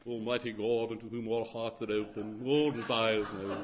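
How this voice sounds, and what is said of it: Put-on English liturgical accent. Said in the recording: “affect this English accent, liturgically at least”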